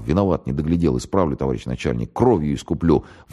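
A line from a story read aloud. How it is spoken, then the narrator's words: Muttering. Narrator (Russian): бормотал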